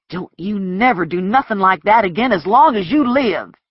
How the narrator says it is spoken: he says angrily

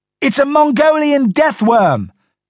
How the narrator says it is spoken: Donnie and Red shouted in unison

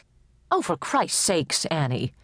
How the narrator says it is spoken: snapped Tibbetts

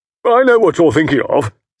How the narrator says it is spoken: said Estcourt, laughing

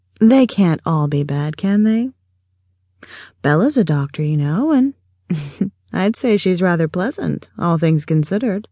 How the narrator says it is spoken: chuckled Morgan

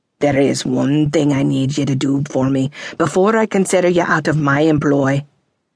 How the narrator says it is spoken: he said, his voice nearly growling

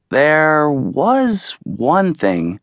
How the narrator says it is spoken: said slowly, enjoying the way his parents were hanging on his every word

